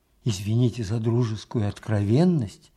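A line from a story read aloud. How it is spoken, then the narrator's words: Whisper. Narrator (Russian): зашептал Михаил Аверьянович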